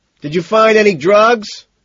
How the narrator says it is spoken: Van Patten shouts

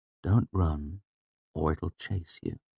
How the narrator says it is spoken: I said softly

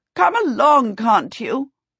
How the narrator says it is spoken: said angrily

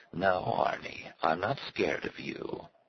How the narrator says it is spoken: in an insinuating, hoarse voice, she said

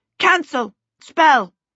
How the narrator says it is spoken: she shouted

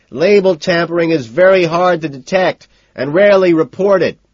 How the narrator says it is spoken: I shout over my shoulder

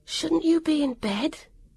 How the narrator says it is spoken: Vivian whispered hopelessly

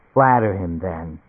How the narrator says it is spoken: Fran Shine said softly

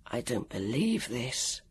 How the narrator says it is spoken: he whispered

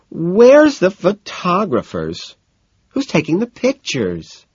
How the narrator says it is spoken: her whining

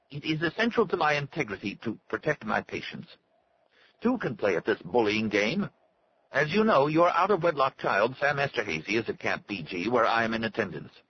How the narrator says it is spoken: Glaub said in a thin, unnatural voice

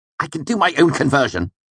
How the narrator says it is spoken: snapped

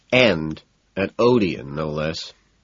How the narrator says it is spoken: Price mutters

